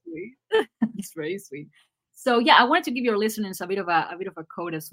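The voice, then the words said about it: Argentinian-accented English. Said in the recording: “if you found my accent annoying throughout this ... I have my trouble with the these and the D's, but I'm Argentinian”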